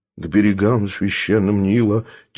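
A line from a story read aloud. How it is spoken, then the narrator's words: Soft humming song. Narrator (Russian): тихонько напевало божество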